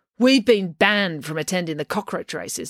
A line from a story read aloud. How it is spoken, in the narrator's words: said April angrily